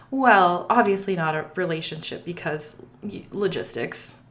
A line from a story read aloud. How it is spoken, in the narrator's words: stammered